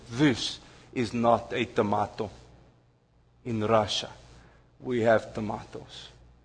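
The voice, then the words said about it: Deliberately bad put-on Russian accent. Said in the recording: “forgive my very bad Russian accent”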